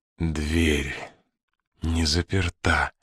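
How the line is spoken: Mutter. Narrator (Russian): пробормотал Холидей

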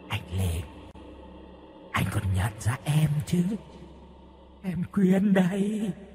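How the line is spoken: Soft, young woman. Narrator (Vietnamese): Miệng của người con gái đó khẽ nói

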